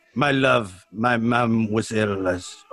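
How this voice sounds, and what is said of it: Put-on Spanish accent. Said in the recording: “with kind of like a Spanishy accent ... That was your Spanish accent”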